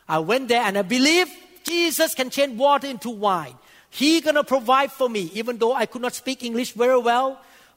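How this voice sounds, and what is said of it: Thai-accented non-native English. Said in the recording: “My accent pretty bad at that time. This is much better than at that time. Still bad though, compared to American people. My accent.”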